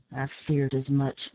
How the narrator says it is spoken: muttered the captain

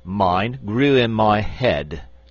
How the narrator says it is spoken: said the frogman pompously

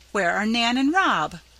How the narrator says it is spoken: cried Mrs

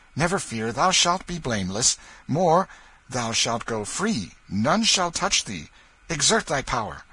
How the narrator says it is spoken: he added excitedly

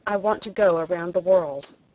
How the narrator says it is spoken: I blurted out

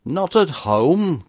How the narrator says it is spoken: cried the vibrant voice

